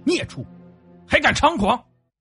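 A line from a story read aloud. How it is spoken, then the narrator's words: Stern harsh shout. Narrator (Chinese): 厉声喝道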